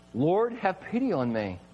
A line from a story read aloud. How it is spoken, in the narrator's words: God himself says